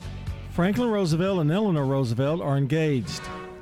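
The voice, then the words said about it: Reads very fast. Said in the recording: “I thought if I read it fast enough, you wouldn't catch it.”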